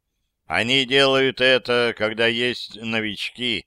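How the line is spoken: Gloomy. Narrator (Russian): мрачно сказал Тихон

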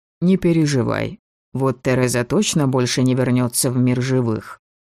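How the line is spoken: Soft-spoken. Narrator (Russian): мягко проговорил Шейн

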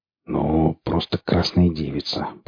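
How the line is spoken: Grumbling mutter. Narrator (Russian): пробурчал Борланд

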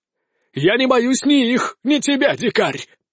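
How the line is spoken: Pompous exclamation. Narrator (Russian): пафосно воскликнул испанец

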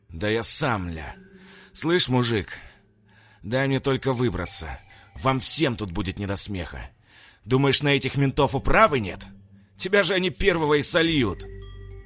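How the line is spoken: Vicious hiss. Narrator (Russian): злобно прошипел Сергей

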